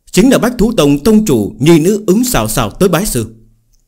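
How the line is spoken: Elder, raised voice. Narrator (Vietnamese): Mạc gia trưởng lão từ trong thuyền lướt đi, cất cao giọng nói

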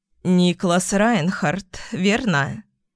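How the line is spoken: Slightly hoarse old woman. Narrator (Russian): С легкой хрипотцой в голосе обратилась ко мне старушенция

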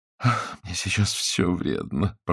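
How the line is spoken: Groaning. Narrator (Russian): простонал Франц

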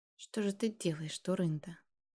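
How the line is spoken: Whisper. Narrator (Russian): Молотов прошептал

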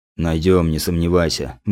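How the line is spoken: Gruff mutter. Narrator (Russian): буркнул опер

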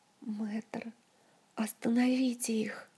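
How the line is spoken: Terrified whisper. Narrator (Russian): В ужасе прошептала Ольга, едва сдерживаясь, чтобы не закричать

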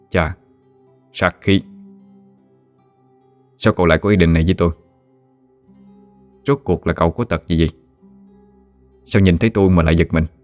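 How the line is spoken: Soft, smiling voice. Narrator (Vietnamese): mỉm cười nhẹ giọng nói

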